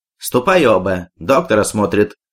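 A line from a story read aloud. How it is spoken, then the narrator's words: Plain. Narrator (Russian): сказал Петр Петрович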